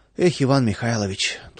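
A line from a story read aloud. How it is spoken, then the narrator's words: Sighing. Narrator (Russian): только и вздохнул Владыкин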